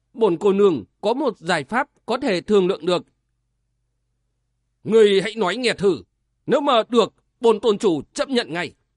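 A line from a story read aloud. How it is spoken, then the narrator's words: Stern voice. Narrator (Vietnamese): Tân Mộ Hòa nghiêm giọng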